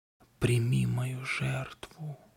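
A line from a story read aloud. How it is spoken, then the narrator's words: Whisper. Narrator (Russian): прошептала Марго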